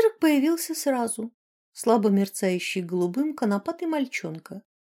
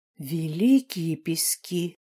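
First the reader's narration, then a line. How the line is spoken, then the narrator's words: Terrified whisper. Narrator (Russian): в ужасе прошептала матушка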